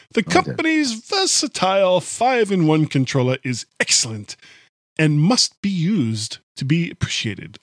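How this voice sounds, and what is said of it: Radio DJ voice. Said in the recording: “I'm going into DJ voice for some reason ... A whole different voice.”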